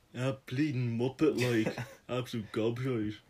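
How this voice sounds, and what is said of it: Exaggerated deep nasal Dublin accent. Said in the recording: “Why are you putting an accent on? ... the stereotypical Dublin accent ... You don't have to deepen your voice ... you gotta deepen your voice, or you gotta nasal the fuck out of it”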